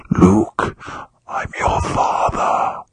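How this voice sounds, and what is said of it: Darth Vader voice impression. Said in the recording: “the only impersonation I can do of Keith Olbermann ... This guy was Darth Vader incarnate.”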